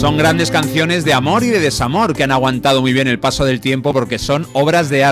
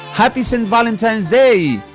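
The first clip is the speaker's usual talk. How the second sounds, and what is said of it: English with a put-on Manchester accent. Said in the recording (Spanish): “Esto se lo digo a Marta con acento de Manchester. Ella lo hace mejor, pero bueno.”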